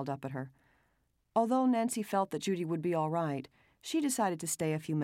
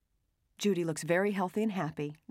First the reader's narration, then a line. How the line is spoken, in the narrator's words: Nancy said quickly